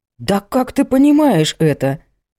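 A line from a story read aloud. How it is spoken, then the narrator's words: Exclaimed. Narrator (Russian): воскликнул Абдулла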